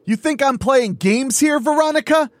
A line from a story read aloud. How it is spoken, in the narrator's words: the killer roared